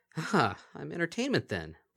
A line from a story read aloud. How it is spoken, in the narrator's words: Bonbon sighed